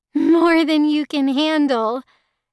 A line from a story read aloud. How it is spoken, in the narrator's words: Yuna laughed